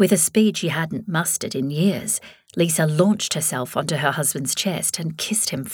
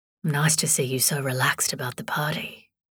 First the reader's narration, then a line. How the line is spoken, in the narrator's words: murmured